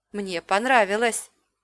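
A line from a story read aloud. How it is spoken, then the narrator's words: Barely audible. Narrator (Russian): еле слышно сказал Лив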